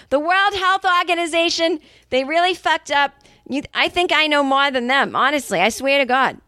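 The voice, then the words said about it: Angry put-on Boston accent. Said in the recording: “the Boston accent comes out when she's angry”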